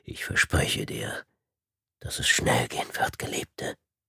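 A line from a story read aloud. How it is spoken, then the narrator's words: Whispering. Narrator (German): flüsterte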